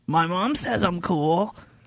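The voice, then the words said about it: Impression of Milhouse Van Houten. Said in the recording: “a quote by Milhouse Van Houten ... That was a great impression.”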